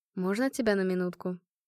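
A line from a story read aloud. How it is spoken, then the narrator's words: Quiet question. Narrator (Russian): Марат негромко спросил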